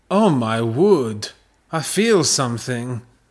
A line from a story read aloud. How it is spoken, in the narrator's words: Peter exclaimed